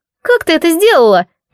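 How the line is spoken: Small squeaky voice. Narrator (Russian): пропищал голосок

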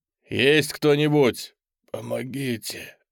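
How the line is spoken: Hoarse male voice. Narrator (Russian): Из темноты послышался мужской хриплый голос

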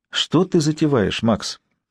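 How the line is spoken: Harsher, sterner question. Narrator (Russian): Спрошено было совсем иным тоном, жестче и суровее

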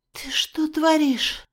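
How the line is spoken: Breathless exhale. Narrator (Russian): выдохнула

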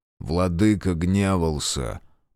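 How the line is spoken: Gloomy sepulchral voice. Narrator (Russian): мрачным замогильным голосом проговорил Рогозин

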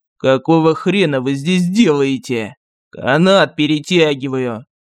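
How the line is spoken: Deafening growl. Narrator (Russian): Оглушительно прорычал Артокс

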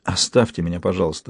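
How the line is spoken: Quiet request. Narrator (Russian): попросил он негромко

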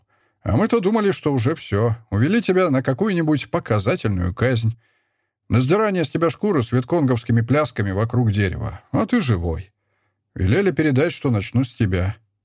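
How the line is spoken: Grim reply. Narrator (Russian): так же мрачно ответил Коллинг

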